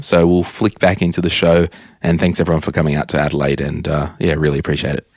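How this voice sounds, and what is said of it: Hoarse, nearly lost voice. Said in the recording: “I've almost lost my voice”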